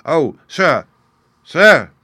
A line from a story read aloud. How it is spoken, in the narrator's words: he cried